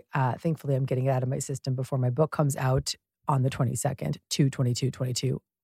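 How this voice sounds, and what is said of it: Raspy voice. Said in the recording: “Today, I have a particularly raspy voice. I have been sick for a week.”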